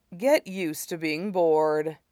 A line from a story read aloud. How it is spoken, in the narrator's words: Long Feng said dryly